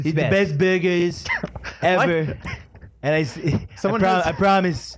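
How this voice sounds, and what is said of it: Donald Trump impression. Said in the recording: “At least one Donald Trump impressions ... you do an impression of Donald Trump.”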